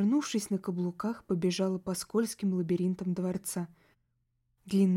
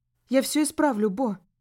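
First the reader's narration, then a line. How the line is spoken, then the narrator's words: Shout. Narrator (Russian): крикнула я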